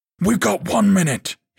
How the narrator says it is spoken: barked

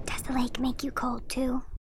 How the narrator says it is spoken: I heard his voice whispering

